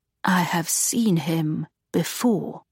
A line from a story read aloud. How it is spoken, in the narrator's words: Augusta said in a low voice